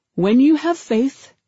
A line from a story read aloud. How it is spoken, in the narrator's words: he said